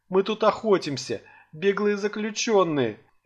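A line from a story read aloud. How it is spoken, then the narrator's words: Sobbing elf woman. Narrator (Russian): Эльфийка всхлипывала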